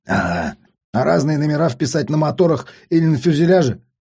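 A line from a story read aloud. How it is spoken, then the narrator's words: Grumbling. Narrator (Russian): проворчал тот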